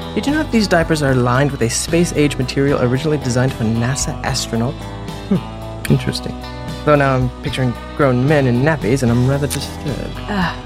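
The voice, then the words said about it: Put-on British accent. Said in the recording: “I liked that British accent”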